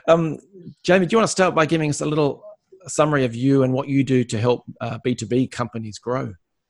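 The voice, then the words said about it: Australian accent. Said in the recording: “the Aussie accent”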